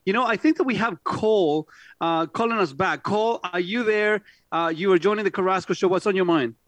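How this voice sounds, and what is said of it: Speaks with a noticeable accent. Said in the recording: “somebody with an accent talking on a normal station”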